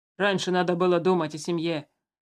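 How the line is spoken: Rude soldier. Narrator (Russian): грубо ответил ему один из солдат

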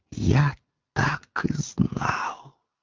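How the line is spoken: Hissed. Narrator (Russian): он не прошептал, а прошипел

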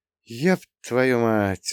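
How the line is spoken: Bitter sigh. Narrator (Russian): вздохнул я еще горше

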